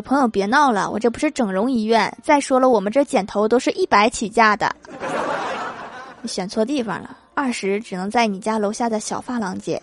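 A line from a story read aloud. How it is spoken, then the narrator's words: Laughing. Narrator (Chinese): 理发师笑了，说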